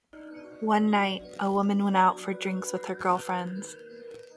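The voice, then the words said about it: Spooky storytelling voice. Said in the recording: “spooky story voice”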